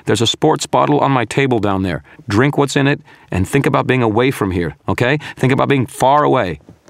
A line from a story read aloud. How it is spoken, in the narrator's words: shouted